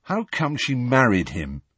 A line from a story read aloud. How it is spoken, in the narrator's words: Harry asked miserably